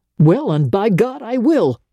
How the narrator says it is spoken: he exclaimed

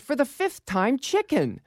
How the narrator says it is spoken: She turned angrily and said

